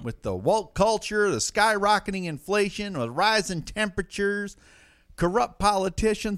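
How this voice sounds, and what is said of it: Put-on accent, maybe Northeast US. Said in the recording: “I'm not sure what accent I'm doing here ... is that Northeast?”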